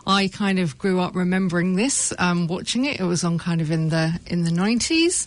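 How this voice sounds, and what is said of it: British English accent. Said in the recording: “you can tell from my accent, I'm from the UK”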